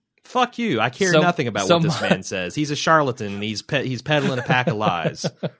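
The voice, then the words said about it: Slight hick Midwestern accent, cowboy-like. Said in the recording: “people tell me I sound like a cowboy ... I have a fairly, it's a little bit of a hick Midwestern accent”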